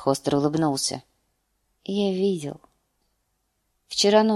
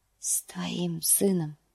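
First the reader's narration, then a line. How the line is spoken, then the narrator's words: Whisper. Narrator (Russian): шепнул он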